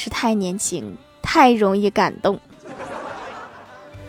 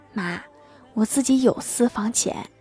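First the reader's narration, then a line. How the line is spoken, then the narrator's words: Moved, quiet. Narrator (Chinese): 郭大侠非常感动，小声的说道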